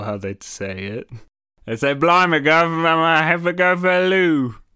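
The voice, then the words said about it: Bad imitation British accent. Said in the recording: “You hear a British person say ... all of your horrible impressions of their accent”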